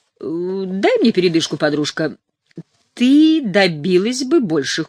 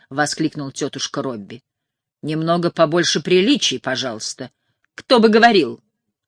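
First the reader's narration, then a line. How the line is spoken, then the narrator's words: Snapping back irritably. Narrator (Russian): огрызнулась Лайла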